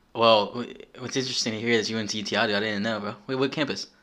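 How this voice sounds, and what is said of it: Baltimore accent. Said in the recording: “that's how I knew you were from Baltimore ... you can hear the accent from a mile away on this guy”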